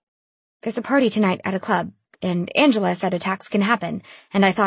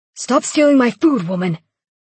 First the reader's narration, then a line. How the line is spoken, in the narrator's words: He roared out the window